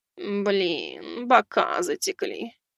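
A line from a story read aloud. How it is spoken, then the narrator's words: Sighing. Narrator (Russian): вздохнула она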